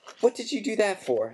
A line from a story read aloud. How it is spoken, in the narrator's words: said Harry furiously